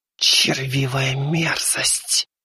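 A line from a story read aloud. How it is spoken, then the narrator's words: Hissing. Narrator (Russian): прошипела шелковая тень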